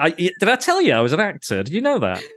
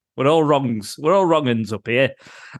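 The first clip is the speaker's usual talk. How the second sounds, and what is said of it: Put-on northern country bumpkin accent. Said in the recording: “your weird country voice ... Country bumpkin voice. From us up north”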